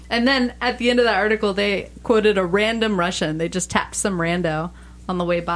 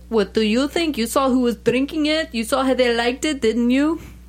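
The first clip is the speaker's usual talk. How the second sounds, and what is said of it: Shaky put-on Russian accent. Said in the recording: “We're getting into a real iffy with my accent ... My accent's terrible, too ... just listening to that accent”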